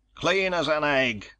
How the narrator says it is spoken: he barked

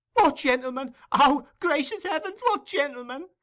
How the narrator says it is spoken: exclaimed Nancy

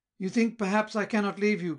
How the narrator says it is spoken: cried he sturdily

